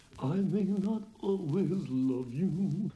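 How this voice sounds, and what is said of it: Imitates another person's singing voice. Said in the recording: “I did quite a good Bowie impersonation.”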